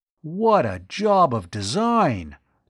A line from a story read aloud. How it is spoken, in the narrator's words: Tom exclaimed in awe